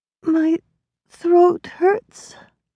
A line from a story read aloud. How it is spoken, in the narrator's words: Flora whimpered, struggling for breath